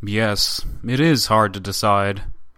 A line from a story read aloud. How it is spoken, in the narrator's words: the up-to-now-silent Tatischev, who added gravely